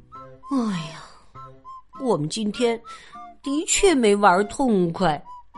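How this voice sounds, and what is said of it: Quiet muttering voice. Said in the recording (Chinese): “小声嘀咕着”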